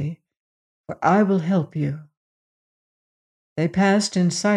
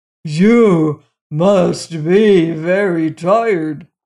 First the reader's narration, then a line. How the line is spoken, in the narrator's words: roared the giant so loudly that the dishes on the shelves rattled